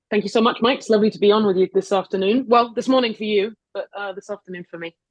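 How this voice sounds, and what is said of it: Non-American foreign accent. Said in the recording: “despite what my accent would tell you, I'm in New York.”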